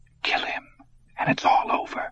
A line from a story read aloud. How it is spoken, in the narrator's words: he whispered in the darkness